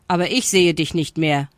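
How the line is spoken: Ostrich calling out. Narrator (German): rief der Strauß

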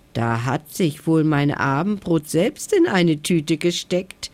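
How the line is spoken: Sneering giggle. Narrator (German): kicherte er höhnisch

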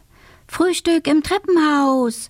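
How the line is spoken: Calling out. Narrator (German): ruft sie

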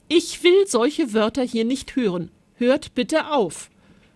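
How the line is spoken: Interrupting call. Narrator (German): rief Maritia dazwischen

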